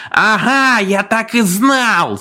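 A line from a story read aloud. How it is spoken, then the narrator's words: Man yelling. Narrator (Russian): завопил один из славных парней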